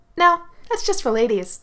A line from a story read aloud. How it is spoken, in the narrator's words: I said cheerfully